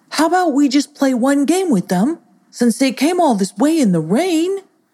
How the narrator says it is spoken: He pleaded

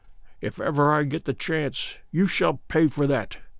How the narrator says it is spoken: Good mutter beneath his breath

